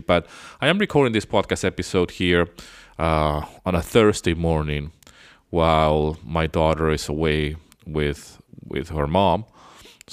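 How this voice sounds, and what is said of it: Slightly funny voice from sore throat. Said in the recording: “I've been ill all this week, so I don't know if my voice sounds still a little bit funny. I had a sore throat. I still have a sore throat.”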